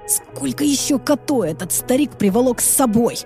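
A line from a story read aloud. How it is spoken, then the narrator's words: Irritated cursing. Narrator (Russian): Раздраженно выругался Райан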